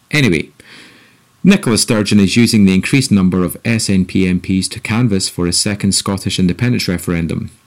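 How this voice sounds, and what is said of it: Scottish accent. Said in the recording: “The Scottish people, of which my accent betrays me as one”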